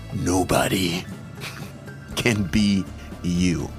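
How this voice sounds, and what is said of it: Dramatic movie-trailer style voice. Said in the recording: “in my movie voice”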